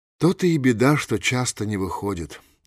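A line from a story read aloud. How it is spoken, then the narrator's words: Sighing. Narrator (Russian): вздохнула Эмма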